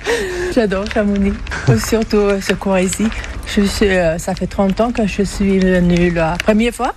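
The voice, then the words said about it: Swedish accent speaking French. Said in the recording (French): “d'où vous vient cet accent ? ... Suédoise.”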